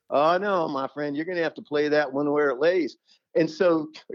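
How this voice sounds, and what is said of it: Imitated Kentucky accent. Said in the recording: “in that Kentucky accent”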